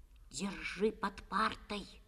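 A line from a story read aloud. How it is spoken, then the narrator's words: Whisper. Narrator (Russian): шепнул Костя Пете Коленкину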